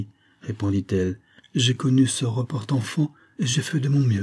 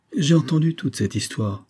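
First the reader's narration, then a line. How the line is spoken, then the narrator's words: Cold. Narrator (French): dit Olivia froidement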